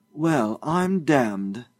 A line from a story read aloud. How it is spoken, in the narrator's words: Josiah exclaimed